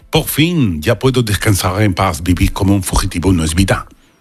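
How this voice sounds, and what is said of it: Put-on Parisian French accent. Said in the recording (Spanish): “Me ha salido bien el acento... te ha salido perfecto... Parisino, vamos.”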